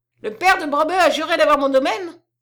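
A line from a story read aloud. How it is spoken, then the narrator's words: Yelling. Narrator (French): hurla Melchior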